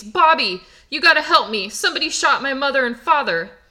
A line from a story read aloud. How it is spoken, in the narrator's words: Butch is crying hysterically, and he pleads